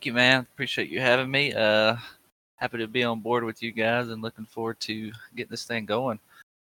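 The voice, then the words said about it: Thick North Carolina Southern twang. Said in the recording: “you have a pretty thick accent ... a little south of Raleigh in North Carolina ... that twang”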